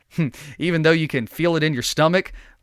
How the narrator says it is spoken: laughed the traveler

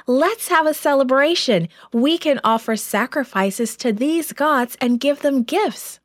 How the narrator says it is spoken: The people became so excited, they shouted

